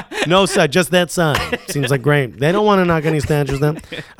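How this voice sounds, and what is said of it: Imitates another person's voice, unconvincingly. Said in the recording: “I don't know why that accent is not Trump”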